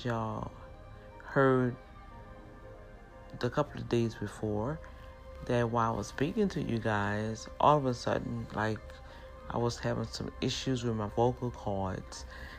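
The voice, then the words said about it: New Orleans accent. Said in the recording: “my accent ... native New Orleans ... we speak kind of fast”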